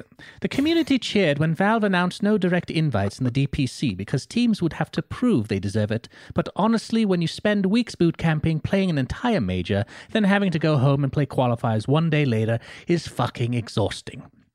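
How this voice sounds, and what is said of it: Put-on British accent. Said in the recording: “let me do this in a British accent.”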